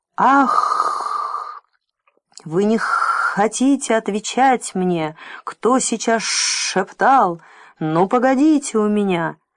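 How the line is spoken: Monster's hiss. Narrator (Russian): чудовище прошипело

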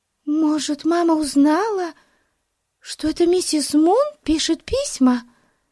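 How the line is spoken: Frightened. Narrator (Russian): Испуганно проговорила Бетси

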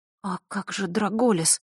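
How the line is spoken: Whisper. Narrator (Russian): прошептала Василиса

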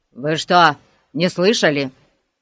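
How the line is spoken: Grumbling. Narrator (Russian): проворчал полицейский

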